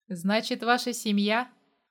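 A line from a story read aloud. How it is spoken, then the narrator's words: Skeptical snort. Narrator (Russian): хмыкнул я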